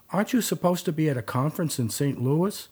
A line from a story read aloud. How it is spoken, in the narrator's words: he had called out